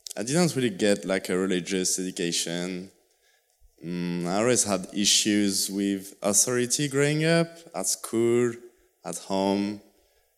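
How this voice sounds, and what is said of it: Strong French accent. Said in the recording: “I'm ... from southwest of France. Sorry. That's why I've got a strong accent.”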